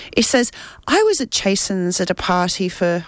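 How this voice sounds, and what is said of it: Unintended put-on Irish accent. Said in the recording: “I don't know why I've got an Irish accent, it's definitely not Irish.”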